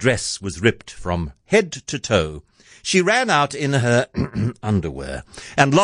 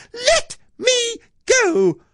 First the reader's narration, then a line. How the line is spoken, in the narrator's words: Cindy shouted